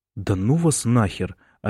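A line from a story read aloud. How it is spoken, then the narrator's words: Hurt whisper. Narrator (Russian): обиженно прошептал Бран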